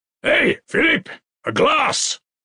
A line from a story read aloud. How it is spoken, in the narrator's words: shouted Svidrigailov